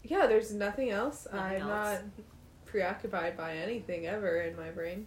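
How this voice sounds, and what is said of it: Sarcastic delivery. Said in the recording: “That was sarcasm”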